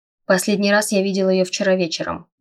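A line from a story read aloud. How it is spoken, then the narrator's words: Gloomy. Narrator (Russian): мрачно сказал он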